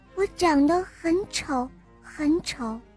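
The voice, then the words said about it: Quiet, soft-spoken line. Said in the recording (Chinese): “公主低下头，小声地说”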